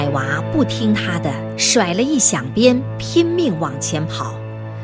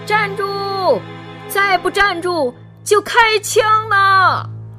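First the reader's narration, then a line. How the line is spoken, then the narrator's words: Forceful shouting. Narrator (Chinese): 鬼子使劲喊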